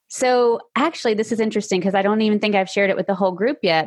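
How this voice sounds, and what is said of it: Slight Tennessee Southern accent. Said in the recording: “I am in Tennessee. You might hear a little bit of an accent.”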